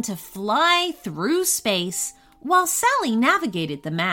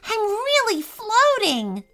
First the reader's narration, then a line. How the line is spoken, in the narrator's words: Sally exclaimed